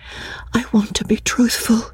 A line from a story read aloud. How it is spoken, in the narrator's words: she whispered